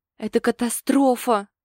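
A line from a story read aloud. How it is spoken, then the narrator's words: Wailing. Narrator (Russian): взвыла Ленка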